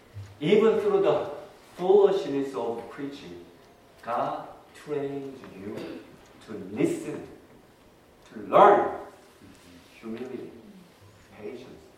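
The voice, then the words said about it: Speaker's noticeable accent. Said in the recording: “my wonderful accent”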